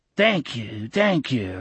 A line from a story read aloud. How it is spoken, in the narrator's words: the blind man croaked monotonously